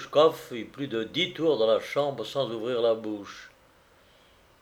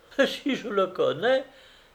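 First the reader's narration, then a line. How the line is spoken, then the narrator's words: Exclaimed. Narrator (French): s'écria Vassilissa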